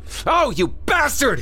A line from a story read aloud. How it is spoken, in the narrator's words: Craig screamed